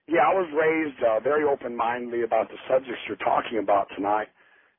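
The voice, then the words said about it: Impaired voice from throat problem. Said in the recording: “excuse my voice. I'm having throat surgery here pretty quick.”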